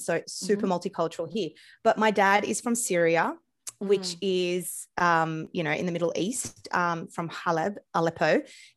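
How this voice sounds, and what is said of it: Australian accent. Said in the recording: “my accent, I'm Australian”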